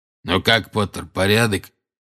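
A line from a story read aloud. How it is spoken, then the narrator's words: Hoarse rasp. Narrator (Russian): прохрипел Грюм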